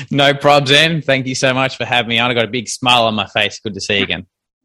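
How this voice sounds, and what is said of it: Australian accent. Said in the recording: “as you can most probably tell from his accent, we are on opposite sides of the world. So you are Australia.”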